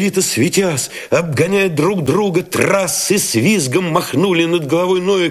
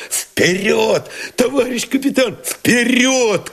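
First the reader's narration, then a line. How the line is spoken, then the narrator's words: Shouted. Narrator (Russian): крикнул Новиков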